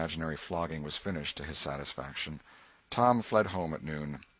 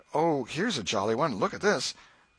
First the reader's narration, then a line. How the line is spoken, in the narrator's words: seeing that he was losing her, he did not know how, kept exclaiming